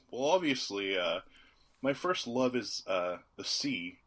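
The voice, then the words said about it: Good Nicolas Cage impression. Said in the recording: “this is a pretty good Nicolas Cage accent. I'm not even kidding.”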